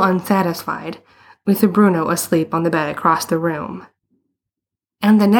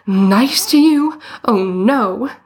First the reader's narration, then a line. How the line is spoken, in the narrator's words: exclaimed